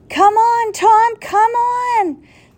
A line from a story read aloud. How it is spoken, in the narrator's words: the professor cried